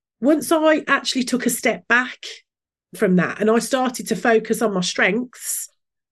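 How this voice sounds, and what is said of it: Brummie accent. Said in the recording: “my Brummie accent”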